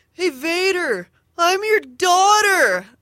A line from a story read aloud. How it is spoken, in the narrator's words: this woman in line behind us yelled